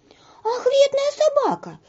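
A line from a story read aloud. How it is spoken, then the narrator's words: Shouting. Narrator (Russian): закричала Женя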